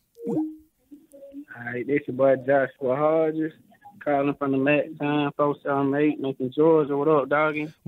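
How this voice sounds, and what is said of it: Strong, hard-to-follow accent. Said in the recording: “I almost didn't get past your accent.”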